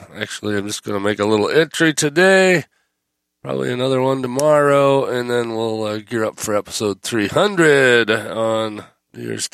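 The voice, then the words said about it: Sick voice from a cold. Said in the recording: “my voice is not right. I have managed to pick up a cold somewhere along the way, so not feeling 100% here”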